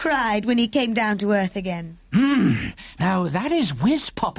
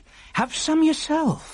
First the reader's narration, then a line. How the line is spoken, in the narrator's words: cried the BFG